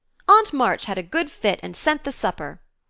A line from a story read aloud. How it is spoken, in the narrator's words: cried Jo, with sudden inspiration